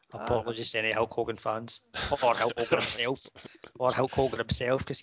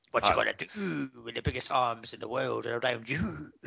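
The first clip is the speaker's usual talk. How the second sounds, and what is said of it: Poor impression of a wrestler's voice. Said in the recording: “That was my poor impression of Hulk Hogan.”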